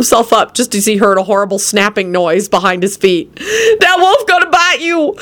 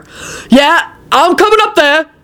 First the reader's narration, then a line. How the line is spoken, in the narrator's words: Quentin yelled